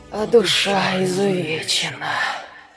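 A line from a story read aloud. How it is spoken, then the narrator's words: Wet wheezing rasp. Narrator (Russian): С влажным присвистом втянув язык, прохрипела тварь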